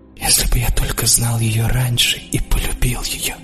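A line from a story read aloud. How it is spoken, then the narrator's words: Whisper. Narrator (Russian): прошептал я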